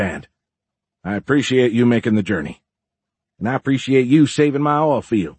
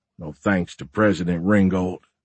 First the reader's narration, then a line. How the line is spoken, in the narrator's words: Sharp muttered